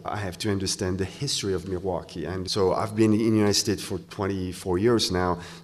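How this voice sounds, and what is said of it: Speaks English with a foreign accent. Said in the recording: “I'm a white guy with an accent.”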